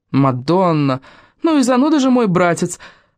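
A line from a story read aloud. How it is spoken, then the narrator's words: Exclaiming. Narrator (Russian): воскликнула Мариза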